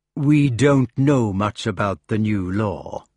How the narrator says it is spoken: said smoothly

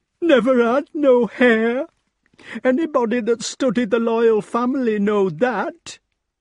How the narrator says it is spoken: said the nurse tearfully

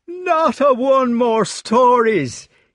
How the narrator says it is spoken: he was shouting

